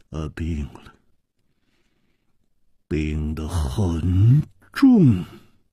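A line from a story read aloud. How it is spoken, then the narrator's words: Heavy sigh, somber. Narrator (Chinese): 左青侯沉重地叹息了一声，黯然说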